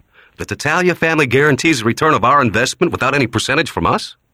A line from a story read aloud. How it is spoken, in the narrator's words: He said eagerly